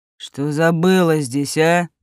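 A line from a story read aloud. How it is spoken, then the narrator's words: Growl. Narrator (Russian): прорычал он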